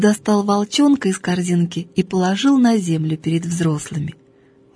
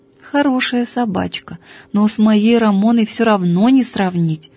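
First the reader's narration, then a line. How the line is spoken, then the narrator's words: Old maid sighing. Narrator (Russian): вздохнула старая дева Евангелия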